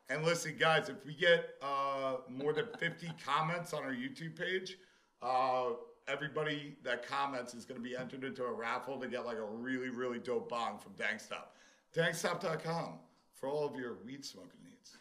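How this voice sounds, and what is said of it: Smooth radio announcer voice. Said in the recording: “That was very sexy... Like that little radio voice?”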